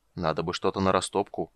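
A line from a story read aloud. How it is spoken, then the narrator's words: Giant's mutter. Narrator (Russian): бормотание исполина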